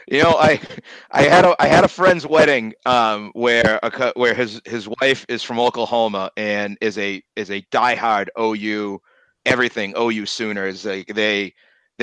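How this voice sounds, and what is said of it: Boston accent. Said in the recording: “You have the iconic Boston accent, we'll say.”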